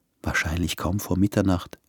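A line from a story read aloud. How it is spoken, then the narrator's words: Smiling whisper. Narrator (German): flüsterte sie und lächelte ihn an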